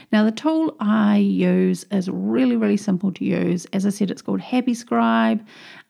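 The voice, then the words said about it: Thick New Zealand accent. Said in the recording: “I've got a bit of a thick Kiwi accent”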